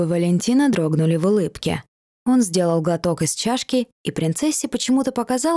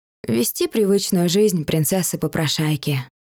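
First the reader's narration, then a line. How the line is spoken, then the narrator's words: Eerily calm, indifferent. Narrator (Russian): ответила Дайна, насколько равнодушно, спокойно и страшно прозвучали ее слова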